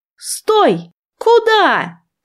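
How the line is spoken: Shouted after them. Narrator (Russian): крикнула я им вслед

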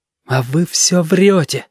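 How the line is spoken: Breathed out, near tears. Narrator (Russian): выдохнул ежики, потому что очень хотелось заплакать

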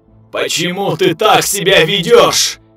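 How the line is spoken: Thundering chorus of thousands. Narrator (Russian): Снова прогремел голос из тысяч глоток

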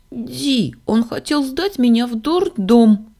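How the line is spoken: Exclaiming little girl. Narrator (Russian): воскликнула малышка

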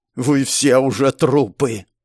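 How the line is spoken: Hissing. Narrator (Russian): прошипел

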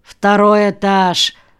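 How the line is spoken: Gruff mutter. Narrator (Russian): буркнул вахтер

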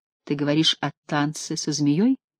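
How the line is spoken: Plain. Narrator (Russian): спросила Таис

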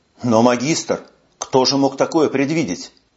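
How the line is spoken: Calm, soft, fatherly explanation. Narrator (Russian): магистр очень спокойно, мягким, отеческим тоном поясняет мне

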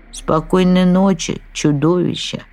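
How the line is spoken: Relieved, with a sigh. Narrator (Russian): ответила красавица и облегченно вздохнула

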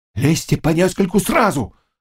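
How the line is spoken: Old man shouting. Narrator (Russian): закричал старый казак

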